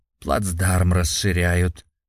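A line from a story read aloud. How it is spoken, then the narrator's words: Wry snort. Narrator (Russian): хмыкнул Сергей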